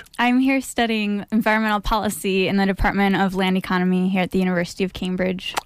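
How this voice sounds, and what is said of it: Non-local accent. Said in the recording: “I can tell by your accent you're not from around these parts.”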